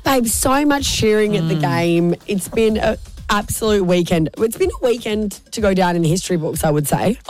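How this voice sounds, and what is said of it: Raspy hoarse voice. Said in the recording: “My voice is a little bit more raspy than it usually is.”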